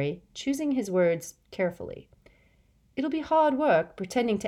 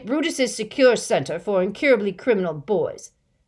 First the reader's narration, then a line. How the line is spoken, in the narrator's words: bellowed Uncle Vernon